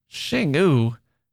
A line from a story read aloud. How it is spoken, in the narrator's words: she scoffed